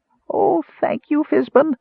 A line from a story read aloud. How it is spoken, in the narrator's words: the Kender squeaked